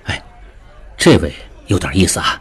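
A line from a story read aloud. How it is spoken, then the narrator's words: Low voice. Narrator (Chinese): 对李德龄低声道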